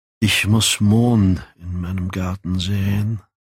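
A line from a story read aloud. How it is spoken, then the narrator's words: Sighed. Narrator (German): seufzte Dorian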